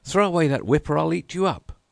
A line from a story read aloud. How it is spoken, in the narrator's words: the man cried out